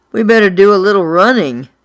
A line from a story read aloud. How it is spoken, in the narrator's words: Buddy moaned